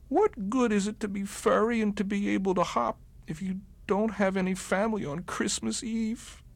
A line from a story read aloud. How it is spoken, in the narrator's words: Barrington cried and cried